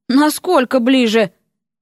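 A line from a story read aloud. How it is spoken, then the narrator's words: Mental sigh. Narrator (Russian): Эрик мысленно вздохнул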